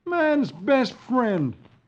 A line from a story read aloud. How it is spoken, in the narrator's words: exclaims